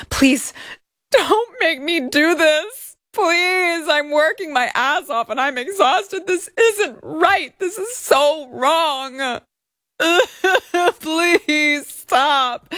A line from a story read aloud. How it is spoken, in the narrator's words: Plaintiff pleaded with Miss Hajini, stating